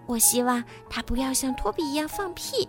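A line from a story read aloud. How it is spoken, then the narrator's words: Quiet whisper. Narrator (Chinese): 蒂娜对尼基叔叔小声说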